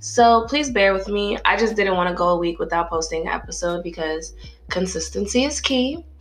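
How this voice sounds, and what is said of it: Sick, congested voice, sounds older. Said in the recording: “a bitch has a cold ... got me fucking sick. So now I sound like an old ass man.”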